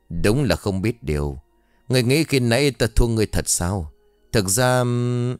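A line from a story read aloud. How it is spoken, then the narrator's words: Sighing. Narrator (Vietnamese): Lão Bân thở dài nói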